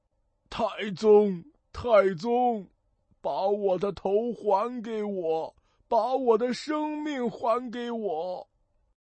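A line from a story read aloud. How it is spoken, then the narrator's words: Crying, bleeding dragon king. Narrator (Chinese): 龙王，身上流着血，哭着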